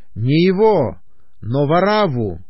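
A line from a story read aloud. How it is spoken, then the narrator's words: Crowd shouting. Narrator (Russian): Тогда опять закричали все, говоря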